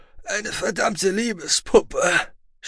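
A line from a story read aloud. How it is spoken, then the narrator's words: Groaning. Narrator (German): stöhnte er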